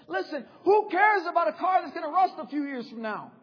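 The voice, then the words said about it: Yelling, screaming sermon delivery. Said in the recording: “I know I'm yelling and screaming a little bit.”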